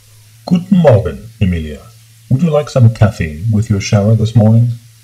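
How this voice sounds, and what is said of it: Deep voice. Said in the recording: “A deep voice issued from the speaker in the ceiling.”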